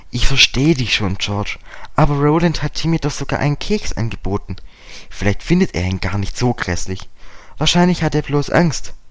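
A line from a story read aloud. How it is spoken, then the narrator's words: Plain. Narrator (German): sagte Dick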